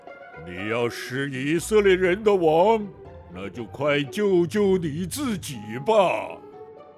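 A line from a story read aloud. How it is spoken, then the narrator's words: Mocking soldiers. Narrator (Chinese): 十字架下的罗马兵也讥笑耶稣说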